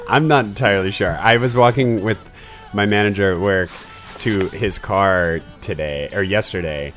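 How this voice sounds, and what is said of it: Hoarse, fading voice. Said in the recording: “Oh my god, that's my voice... I'm obviously losing my voice... it just dried out my vocal cords”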